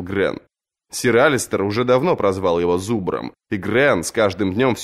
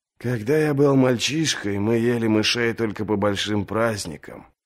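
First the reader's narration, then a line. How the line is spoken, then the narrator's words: Mournful sigh. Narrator (Russian): вздохнул скорбный Эд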